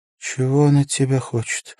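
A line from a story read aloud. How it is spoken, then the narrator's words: Sleepy question. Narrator (Russian): тем же сонным голосом спросила жена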